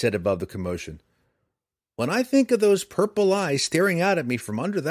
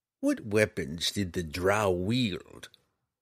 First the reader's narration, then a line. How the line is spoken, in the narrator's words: Roddy asked grimly